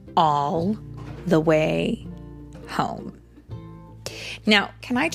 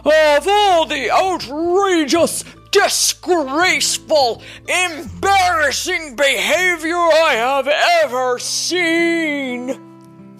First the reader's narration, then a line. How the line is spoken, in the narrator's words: he roared